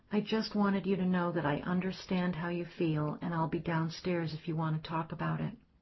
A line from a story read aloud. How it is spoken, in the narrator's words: He said very quietly